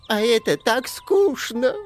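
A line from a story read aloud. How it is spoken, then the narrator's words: Sobbing, barely intelligible complaint. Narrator (Russian): пожаловался и зарыдал так, что едва можно было разобрать, что он говорил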